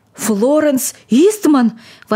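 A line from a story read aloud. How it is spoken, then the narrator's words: Old man's agitated exclamation. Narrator (Russian): воскликнул старик, отшатываясь в неудержимом волнении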